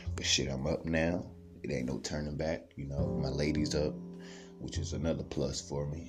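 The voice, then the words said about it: Sleepy, just-woken-up voice. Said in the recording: “can hear the sleep in my voice”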